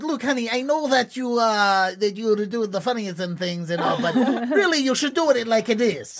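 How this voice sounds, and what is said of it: Terrible Russian-to-Italian put-on accent. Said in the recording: “I'm gonna be whatever offensive accent I can be ... I went from Russian to Italian in three words ... All the bases of offensiveness with that terrible accent.”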